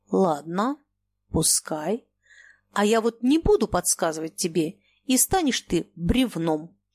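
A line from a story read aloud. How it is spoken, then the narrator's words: Slow, agitated. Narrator (Russian): Желтое лицо Ежова покрылось пятнами, и он медленно ответил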